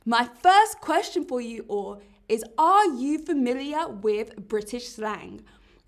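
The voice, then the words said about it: London English accent. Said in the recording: “Maybe you can tell from my accent, but I'm from London”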